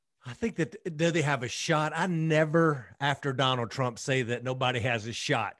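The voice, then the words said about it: Texas accent. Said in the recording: “I love the Texas accent, man.”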